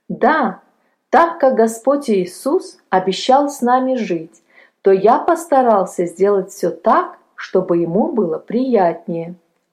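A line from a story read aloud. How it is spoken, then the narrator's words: Plain. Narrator (Russian): ответил Палко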